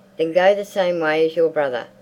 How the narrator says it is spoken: roared her father

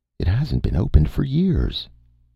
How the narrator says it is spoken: exclaimed Valeria

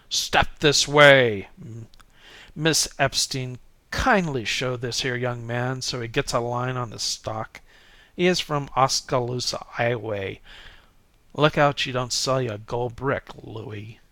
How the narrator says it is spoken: he bellowed

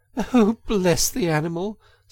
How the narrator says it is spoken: said the girl, laughing

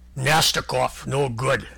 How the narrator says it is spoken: said Vladimir Brusilov coldly

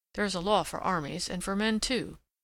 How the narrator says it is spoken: he muttered, lost in reflection

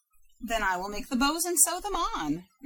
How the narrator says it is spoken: replied Grandmother Wheeler happily

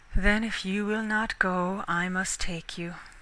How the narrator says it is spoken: said Canute with a sigh

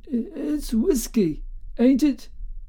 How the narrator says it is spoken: he piped feebly

